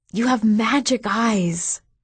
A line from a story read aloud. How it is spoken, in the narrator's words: she whispered